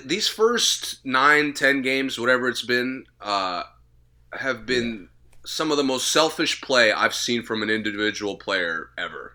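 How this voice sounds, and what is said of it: Strained, fading voice. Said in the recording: “I hope I don't yell too much, because I might be losing my voice,”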